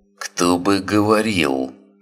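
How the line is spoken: Hissing. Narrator (Russian): прошипел Свен

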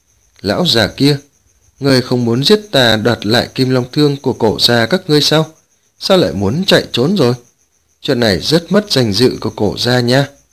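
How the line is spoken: Cold, sneering laugh. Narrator (Vietnamese): Lăng Tiếu cười nhạt nói

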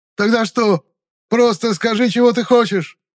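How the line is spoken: Yelling. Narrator (Russian): завопил темноликий

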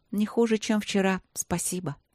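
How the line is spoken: Sighing. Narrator (Russian): снова вздохнула Светлана

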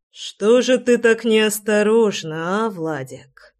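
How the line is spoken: Hissing in a strange voice. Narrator (Russian): Совершенно чужим голосом прошипел Рами

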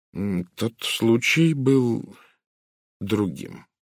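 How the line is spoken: Slow. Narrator (Russian): медленно произнес он

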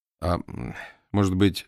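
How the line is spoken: Timid. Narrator (Russian): сказал он робко

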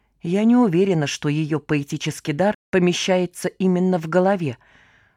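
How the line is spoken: Whisper in ear. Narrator (Russian): шепнула на ухо сестре Кисонька

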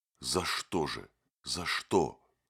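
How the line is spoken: Trembling whisper. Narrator (Russian): шептали его дрожащие губы

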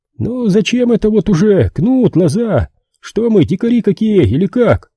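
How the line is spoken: Philosophical question. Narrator (Russian): Философски вопросил Ефим

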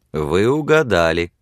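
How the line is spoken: Laughing. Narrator (Russian): засмеялся он

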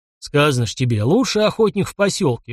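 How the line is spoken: Sudden deep bass voice. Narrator (Russian): вдруг пробасил урядник

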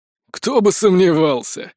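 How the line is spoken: Snort. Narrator (Russian): хмыкнул Рид

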